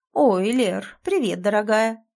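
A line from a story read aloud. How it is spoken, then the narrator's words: Cheerful, slightly guilty lecturer voice. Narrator (Russian): Ее поставленный лекторский голос звучит бодро, но почему-то чуть виновата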